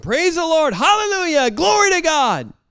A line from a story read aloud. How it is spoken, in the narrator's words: an old country preacher, and he's standing there just shouting